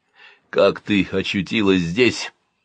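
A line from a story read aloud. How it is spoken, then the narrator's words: Hoarse question. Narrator (Russian): хрипло спросил Навк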